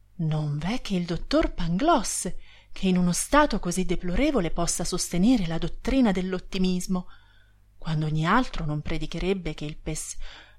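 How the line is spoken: Exclaimed. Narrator (Italian): esclama Candido

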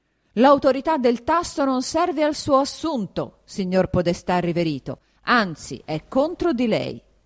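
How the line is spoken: Yelling again. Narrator (Italian): riprese a urlare il conte Attilio

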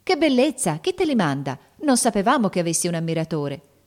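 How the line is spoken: Girls exclaiming, curious, surprised. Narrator (Italian): esclamarono le ragazze con curiosità e sorpresa

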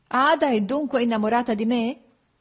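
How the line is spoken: Laughing. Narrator (Italian): feci ridendo

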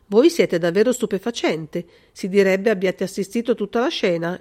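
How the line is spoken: Colonel's exclamation. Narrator (Italian): esclamò il colonnello

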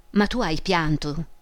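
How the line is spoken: Plain. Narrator (Italian): disse

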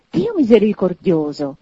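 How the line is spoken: Man's choked astonished exclamation. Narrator (Italian): esclamò il signore soffocato dallo stupore

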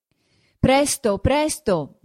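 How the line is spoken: Shouting from inside. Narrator (Italian): diceva anche Ferrer di dentro, sotto il portico … gridando

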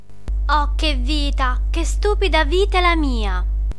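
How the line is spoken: Whining mutter to herself. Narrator (Italian): borbottava fra sé con la voce da piagnisteo d'una regina da tragedia

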